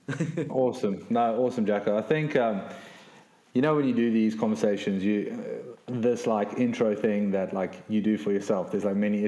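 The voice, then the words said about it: Accent with a twang. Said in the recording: “a twang in the accent”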